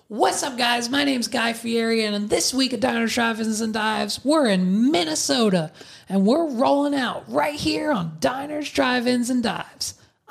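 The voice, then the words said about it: Imitates another person's voice. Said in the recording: “That was so good. That was such a good impression.”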